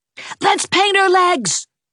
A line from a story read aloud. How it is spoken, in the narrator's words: shouted Gerald